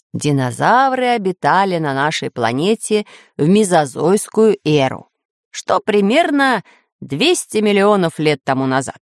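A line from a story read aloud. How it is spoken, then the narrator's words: Plain. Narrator (Russian): ответил географ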